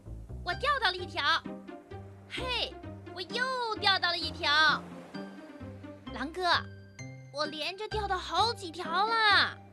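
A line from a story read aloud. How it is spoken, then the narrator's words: Excited repeated shouting. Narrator (Chinese): 狐狸运气不错，它不停地喊着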